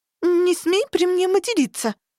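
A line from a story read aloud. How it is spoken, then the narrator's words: Hiccup then squeak. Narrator (Russian): Громко икнув, пискнула я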